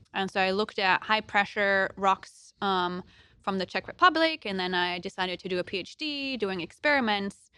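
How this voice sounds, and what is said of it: Slight German accent. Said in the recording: “you might hear a little accent when I talk, and that's because I'm German”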